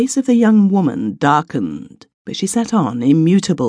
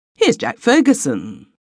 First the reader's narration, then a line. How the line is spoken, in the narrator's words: exclaimed Malcolm